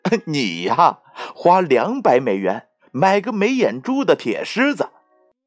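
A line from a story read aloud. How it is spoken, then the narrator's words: Mocking. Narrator (Chinese): 罗伯特嘲笑道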